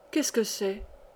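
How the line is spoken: Faint sigh. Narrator (French): soupira une voix faible

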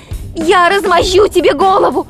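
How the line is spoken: Desperate shout. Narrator (Russian): в отчаянии крикнула Хиллари

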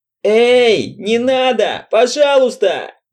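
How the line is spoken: Frightened yell. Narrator (Russian): завопил Энша

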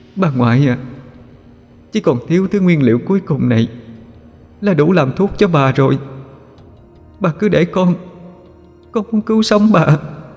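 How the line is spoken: Choked, tearful. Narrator (Vietnamese): Con quỷ nghẹn ngào nói

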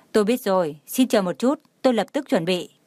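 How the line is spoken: Smiling speech. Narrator (Vietnamese): Tần Hà lập tức mỉm cười nói

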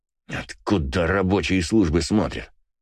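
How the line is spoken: Angry words through teeth. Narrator (Russian): Зло процедил Иваныч

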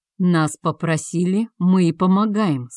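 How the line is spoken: Calm explanation. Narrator (Russian): спокойно пояснил Тиан

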